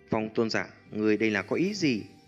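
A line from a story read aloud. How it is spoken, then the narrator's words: Hint of anger. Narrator (Vietnamese): Trong thanh âm của Lôi Tôn Giả ẩn hiện chút tức giận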